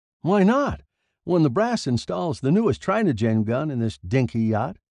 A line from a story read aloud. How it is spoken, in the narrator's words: he laughed mirthlessly